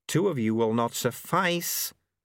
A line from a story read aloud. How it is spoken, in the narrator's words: snarled the auditor in their heads